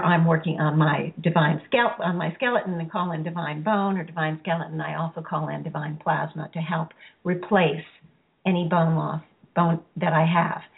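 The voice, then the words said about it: Hoarse, raspy voice. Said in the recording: “I'm a little hoarse today ... I still have a little bit of that raspy voice”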